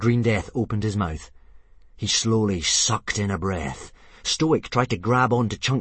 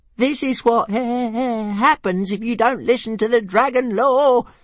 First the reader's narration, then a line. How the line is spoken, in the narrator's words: shrieked Toothless to himself in horror